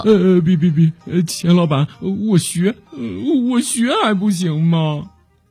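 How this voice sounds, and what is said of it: Trembling, frightened voice. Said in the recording (Chinese): “他用颤抖的声音说”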